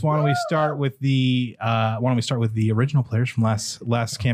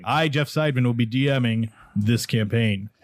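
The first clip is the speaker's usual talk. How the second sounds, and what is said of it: Deep, exaggerated narrator voice. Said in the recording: “my voice got deep ... your DM voice ... And DM voice.”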